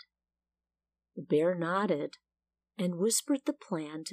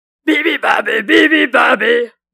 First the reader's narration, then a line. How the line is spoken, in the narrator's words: roared the lion